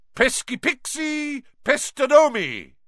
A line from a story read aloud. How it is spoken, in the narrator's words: bellowed